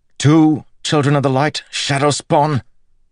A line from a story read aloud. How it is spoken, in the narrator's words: Bornholt spat